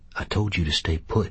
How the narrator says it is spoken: Call reminded him, but in a low voice

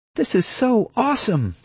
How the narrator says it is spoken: she cried

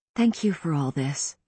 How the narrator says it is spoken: I said softly

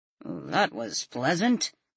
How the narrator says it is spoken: Ben said dryly

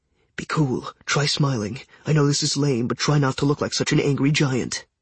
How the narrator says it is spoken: Jason kept muttering

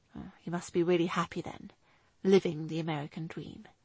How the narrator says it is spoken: he replied quietly

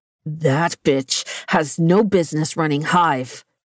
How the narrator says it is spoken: he growled

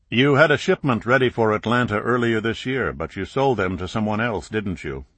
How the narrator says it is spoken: Clark asked

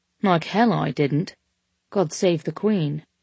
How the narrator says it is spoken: he said dryly

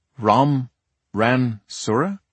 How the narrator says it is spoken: he said, slowly enunciating each syllable

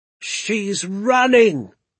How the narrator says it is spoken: Doc Spencer cried

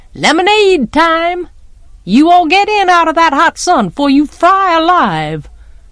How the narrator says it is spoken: Calpurnia yelled

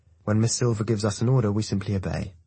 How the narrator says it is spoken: says calmly

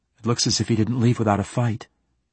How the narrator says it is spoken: she said

